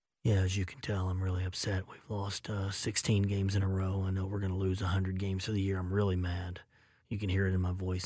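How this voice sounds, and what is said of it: Mumbled, unenthusiastic imitation of another person. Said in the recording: “my famous John Russell impression ... You could never hear what the guy was saying.”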